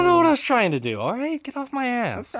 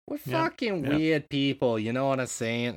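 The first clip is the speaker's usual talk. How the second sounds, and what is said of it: Botched half-Canadian, half-Boston accent. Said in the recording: “That's not an accent I can do. ... I was like half Canadian ... Canadian ate some poor bastard from Boston.”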